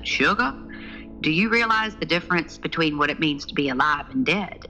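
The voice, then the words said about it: Big, deep Southern US accent. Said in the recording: “in this big, deep southern accent”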